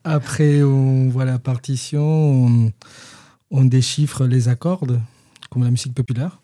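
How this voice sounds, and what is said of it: Peruvian Spanish accent in French. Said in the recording (French): “on reconnaît à ton accent que tu n'es pas de Rabastens... Tu es péruvien.”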